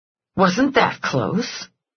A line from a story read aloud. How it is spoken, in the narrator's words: Eve said under her breath